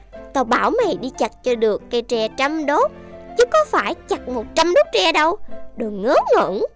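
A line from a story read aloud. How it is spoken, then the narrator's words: Rich old man's hasty scolding. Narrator (Vietnamese): phú ông vội quát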